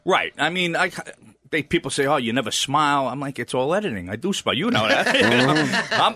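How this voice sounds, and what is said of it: New York accent. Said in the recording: “he might have a New York accent, be very New York”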